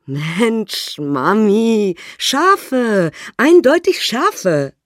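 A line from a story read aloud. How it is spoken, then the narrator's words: Giggling boys. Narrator (German): sie kichern und sagen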